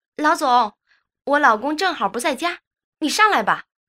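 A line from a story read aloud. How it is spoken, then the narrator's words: Yelling at the top of voice. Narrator (Chinese): 扯着嗓子对楼下喊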